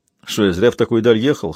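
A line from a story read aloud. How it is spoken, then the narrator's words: Snort. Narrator (Russian): хмыкнул детектив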